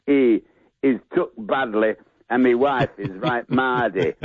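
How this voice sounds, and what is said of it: Fake Yorkshire accent. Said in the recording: “I want to hear more of that accent from you. ... it's like me fake Yorkshire”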